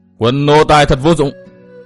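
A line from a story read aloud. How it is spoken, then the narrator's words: Angry scolding. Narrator (Vietnamese): Phác Ma Thiên giận dữ mắng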